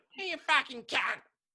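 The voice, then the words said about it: Exaggerated nasal Australian accent. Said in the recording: “an Australian person ... It's like real nasally.”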